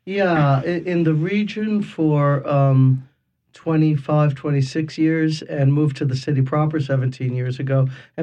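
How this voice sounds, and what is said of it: Local New Orleans yat accent. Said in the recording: “you come by your yacht accent, honestly”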